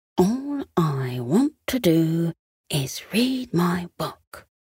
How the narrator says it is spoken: he whispered to himself

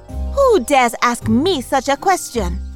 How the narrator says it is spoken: replied angrily

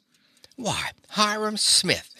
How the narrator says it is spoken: she cried

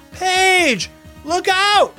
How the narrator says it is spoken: cried Elias

